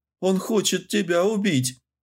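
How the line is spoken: Roaring laughter. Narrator (Russian): Скорострел захохотал

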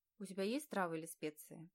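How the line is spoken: Sudden muffled question. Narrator (Russian): Внезапно, чуть побледнев, глухо спрашивает красавчик

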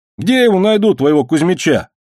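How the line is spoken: Younger one snapping back. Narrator (Russian): огрызнулся младший

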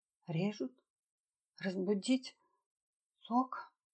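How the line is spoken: Dazed babbling. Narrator (Russian): очумело лепетала Сюзанна

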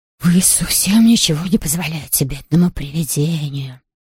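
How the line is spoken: Offended muffled mumbling. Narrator (Russian): послышалось обиженное бормотание из чемодана

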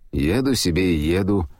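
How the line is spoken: Cold retort. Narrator (Russian): холодно возразил извозчик

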